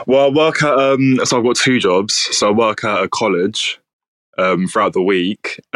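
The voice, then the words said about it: Southeast London English accent. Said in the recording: “I love your accent ... I'm actually from Southeast London”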